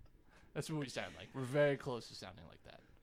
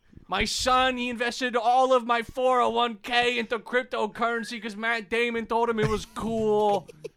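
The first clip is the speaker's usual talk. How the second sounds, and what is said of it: Yelling old man voice, vaguely New York. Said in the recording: “Including the New York accent? ... That was ambiguous old man yelling. If it sounded like New York”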